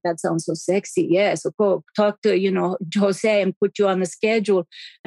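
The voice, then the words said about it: Put-on accent imitating someone. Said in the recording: “He's an accent. I'm not just doing that.”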